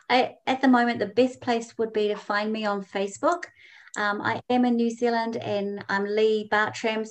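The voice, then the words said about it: New Zealand accent. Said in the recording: “the Kiwi accent”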